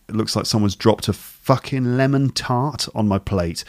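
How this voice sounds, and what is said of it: Northern English accent. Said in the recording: “Notice the way he says fucking, not fucking. So, which is a slight difference in his accent, which suggests that he's not from London. He's from somewhere further north.”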